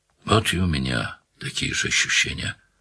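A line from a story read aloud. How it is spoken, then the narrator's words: Sighing. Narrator (Russian): вздохнул Данил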